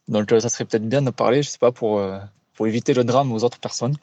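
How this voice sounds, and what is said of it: Slight regional or foreign accent. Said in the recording (French): “ton, petit accent, là, ah c'est mignon. D'où tu viens”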